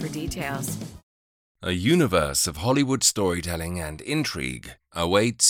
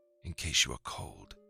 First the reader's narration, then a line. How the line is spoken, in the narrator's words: he whispered into her ear